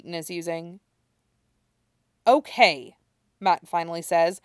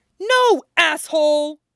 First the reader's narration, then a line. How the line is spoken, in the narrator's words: Matt screams suddenly